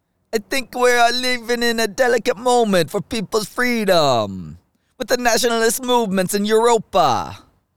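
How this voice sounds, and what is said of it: Put-on old Italian accent. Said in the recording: “It's very tempted to try the old Italian accent with that quote... No, that doesn't work.”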